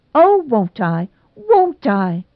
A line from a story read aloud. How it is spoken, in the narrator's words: cried Nora, so shamelessly